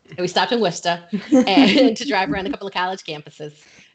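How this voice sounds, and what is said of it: Put-on Massachusetts accent. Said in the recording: “that full accent to come out ... saying it in a Massachusetts accent”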